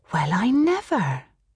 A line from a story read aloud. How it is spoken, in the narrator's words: breathed Kitty